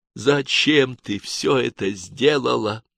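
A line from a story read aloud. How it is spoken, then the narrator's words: Commissar breathing words out. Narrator (Russian): не спросил, выдохнул комиссар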